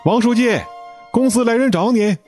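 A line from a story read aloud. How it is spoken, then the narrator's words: Shouting. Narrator (Chinese): 有人在喊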